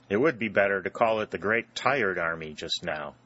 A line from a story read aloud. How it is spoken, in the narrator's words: said Harry